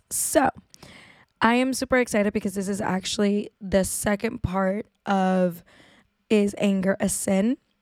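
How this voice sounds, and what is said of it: Hoarse, sick-sounding voice. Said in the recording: “my horrible voice. I woke up a little bit sick this morning ... losing my voice.”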